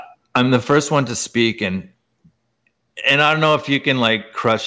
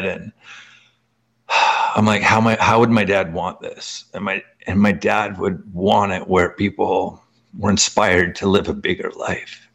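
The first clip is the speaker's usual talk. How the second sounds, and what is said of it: Emotional, choked-up voice. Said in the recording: “I'm going to get emotional”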